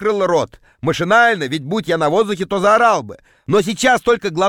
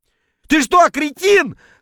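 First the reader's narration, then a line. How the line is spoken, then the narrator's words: Yelling, noisily spitting. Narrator (Russian): вопил я шумно отплевываясь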